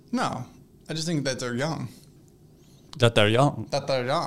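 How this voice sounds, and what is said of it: Put-on Transylvanian vampire accent. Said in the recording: “Sorry, my accent came out. My I'm a vampire. My Transylvanian accent.”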